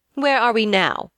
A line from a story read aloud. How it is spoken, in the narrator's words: asked Vashti haughtily